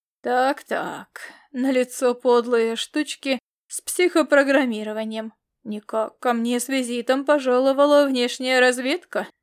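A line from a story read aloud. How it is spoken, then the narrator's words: Thoughtful, slightly sarcastic. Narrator (Russian): заметил он не столь язвительно, сколько раздумчиво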